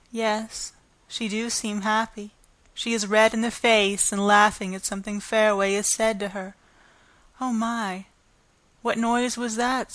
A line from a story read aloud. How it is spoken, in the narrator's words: said Clem